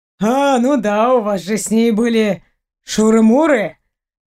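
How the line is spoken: Smirking grunt. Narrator (Russian): хмыкнул Семенович

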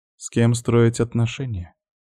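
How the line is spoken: Calm. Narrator (Russian): ответила спокойно Айка

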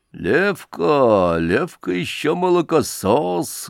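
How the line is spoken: Hoarse undertone. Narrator (Russian): говорил хриплый в полголоса высокий человек

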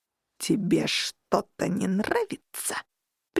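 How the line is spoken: Menacing hiss. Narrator (Russian): прищурившись с угрозой, прошипел он

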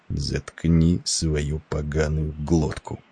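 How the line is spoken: Fierce whisper. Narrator (Russian): послышался свирепый шепот Петерсона

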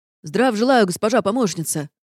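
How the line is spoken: Gruff man barking. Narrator (Russian): рявкнул рогатый мужик

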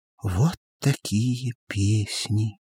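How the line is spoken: Whisper. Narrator (Russian): прошептала

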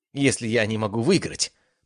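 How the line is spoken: Growl. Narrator (Russian): прорычала она

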